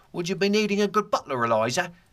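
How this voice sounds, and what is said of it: Cockney accent. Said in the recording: “I learned better to get my Cockney accent down.”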